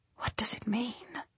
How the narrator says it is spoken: She whispers

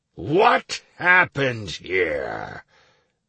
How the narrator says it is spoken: Bion asked menacingly, once he'd regained the ability to speak

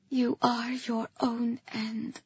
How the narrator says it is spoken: I whispered

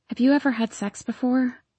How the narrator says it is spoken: I shivered, cringed away, and wearily asked

